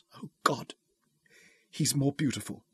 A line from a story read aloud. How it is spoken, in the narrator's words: gasped